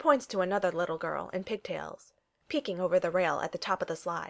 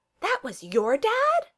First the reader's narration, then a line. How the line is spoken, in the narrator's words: Lilo yelps